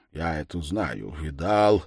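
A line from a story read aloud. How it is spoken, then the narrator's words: Muttering official. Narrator (Russian): бормотал чиновник Раскольникову или Безятникову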